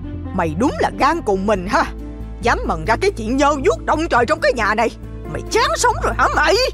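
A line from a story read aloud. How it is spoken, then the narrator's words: Furious shout. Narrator (Vietnamese): Bà ta hét lên đầy giận dữ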